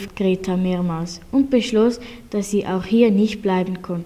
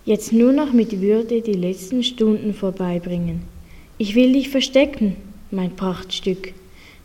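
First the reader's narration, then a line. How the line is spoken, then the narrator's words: Plain, farmer's wife. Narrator (German): sagte die Bäuerin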